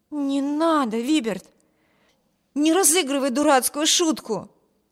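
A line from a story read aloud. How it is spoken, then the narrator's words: Exclaimed. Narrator (Russian): воскликнула Эми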